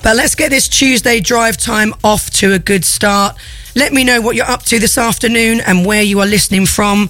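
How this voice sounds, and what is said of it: Croaky, hoarse voice. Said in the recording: “my voice might tell you otherwise. I am feeling a little bit croaky today ... I'm sounding a little hoarse”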